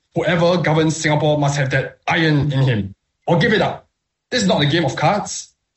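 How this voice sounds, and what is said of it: Imitates another person's voice. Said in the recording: “my impression of Lee Kuan Yew”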